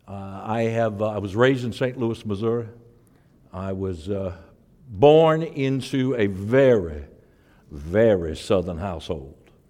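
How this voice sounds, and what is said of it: Thick regional accent. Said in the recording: “my accent, because the more I get comfortable, the thicker it gets”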